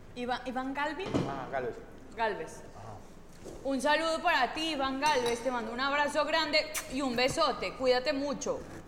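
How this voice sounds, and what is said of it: Put-on Colombian Spanish accent. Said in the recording (Spanish): “¿me puedes mandar un saludo con acento colombiano”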